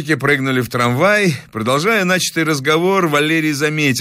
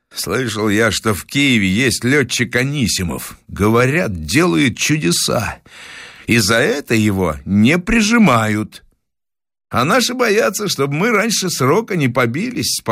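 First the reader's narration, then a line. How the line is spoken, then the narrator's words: Calm statement. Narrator (Russian): спокойно констатировал товарищ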